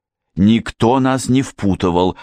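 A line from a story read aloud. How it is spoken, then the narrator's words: Irritated reply. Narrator (Russian): раздраженно ответила Мэри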